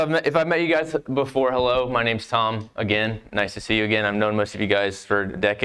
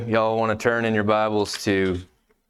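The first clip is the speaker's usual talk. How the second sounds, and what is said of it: Put-on American Southern accent. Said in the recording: “I'll talk in a southern accent”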